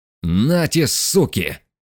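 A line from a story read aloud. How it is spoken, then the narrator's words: Sudden roar. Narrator (Russian): вдруг взревел Мишка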